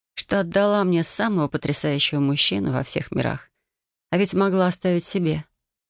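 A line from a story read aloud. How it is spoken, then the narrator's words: Drawling with a chuckle. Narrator (Russian): со смешком протянула я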